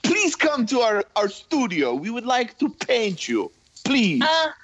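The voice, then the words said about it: Put-on foreign accent, slightly Italian. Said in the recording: “I like your accents. ... Oh, there's a little Italian in there.”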